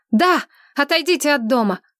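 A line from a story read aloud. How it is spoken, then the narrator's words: Shout. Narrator (Russian): закричала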